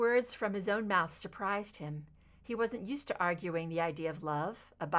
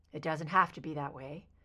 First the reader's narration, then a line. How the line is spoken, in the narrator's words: Mulder murmured